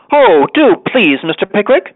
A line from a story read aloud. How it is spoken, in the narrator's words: cried all the ladies